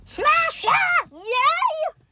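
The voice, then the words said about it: Bad impersonation of goats. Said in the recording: “very bad impersonation.”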